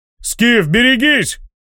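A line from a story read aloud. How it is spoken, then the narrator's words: Urgent shout. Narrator (Russian): закричал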